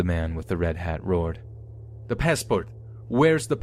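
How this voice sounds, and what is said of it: Usual voice. Nothing is said of it.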